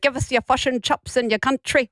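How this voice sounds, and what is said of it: Bad put-on New Zealand accent. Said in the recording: “That's a terrible accent.”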